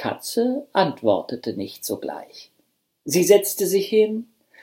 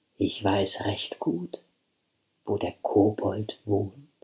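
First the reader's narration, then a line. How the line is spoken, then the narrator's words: Gentle voice. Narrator (German): sagte mit sanfter Stimme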